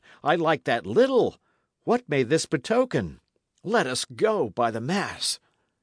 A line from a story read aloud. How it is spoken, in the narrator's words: he cried again